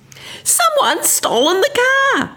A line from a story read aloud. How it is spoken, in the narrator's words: she screamed at me